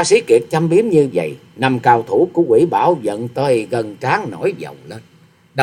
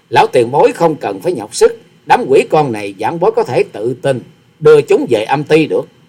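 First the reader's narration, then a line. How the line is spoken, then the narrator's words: Bursting into laughter. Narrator (Vietnamese): Hòa sĩ Kiệt bật cười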